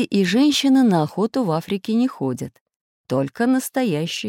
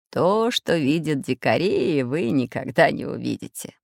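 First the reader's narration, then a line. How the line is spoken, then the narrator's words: Laughing. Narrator (Russian): засмеялся географ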